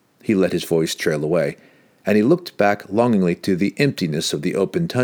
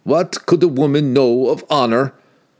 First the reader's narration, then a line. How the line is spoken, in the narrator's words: Wolfgar shot back angrily